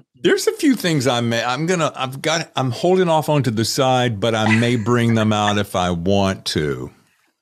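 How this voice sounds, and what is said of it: North Carolina Southern accent. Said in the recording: “I'm gonna sport my North Carolina accent.”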